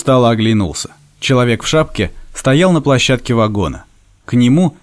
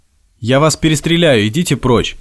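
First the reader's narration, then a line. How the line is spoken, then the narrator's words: Dry and loud. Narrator (Russian): Сухо и громко раздавалось на площадке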